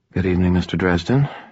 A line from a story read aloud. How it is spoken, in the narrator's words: she murmured